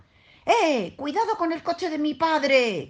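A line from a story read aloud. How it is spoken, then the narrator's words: Shouted. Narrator (Spanish): gritó Alfonsito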